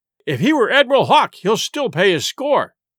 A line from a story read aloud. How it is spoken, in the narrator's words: cried Silver